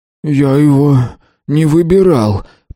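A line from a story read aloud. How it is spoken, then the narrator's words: Hoarse wheeze. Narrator (Russian): прохрипел Тиренс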